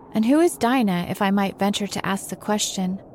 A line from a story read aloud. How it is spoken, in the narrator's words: said the lory